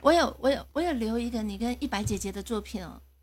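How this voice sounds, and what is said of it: Taiwanese Mandarin accent. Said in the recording (Chinese): “这是哪里口音啊？...是台湾的口音。”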